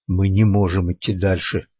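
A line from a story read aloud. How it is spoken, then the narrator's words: Whisper. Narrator (Russian): прошептал Бен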